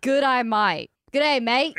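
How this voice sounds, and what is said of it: Put-on Australian accent. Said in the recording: “Say it. You have a good Australian accent”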